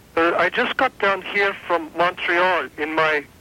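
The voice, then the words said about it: Odd put-on foreign accent. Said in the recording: “that's sure a funny accent for a French Canadian man. You sound more like you just got like Greek to me.”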